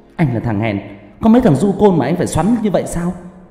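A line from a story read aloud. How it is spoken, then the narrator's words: Woman shouting loudly. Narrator (Vietnamese): cô gái lại to mồm quát lớn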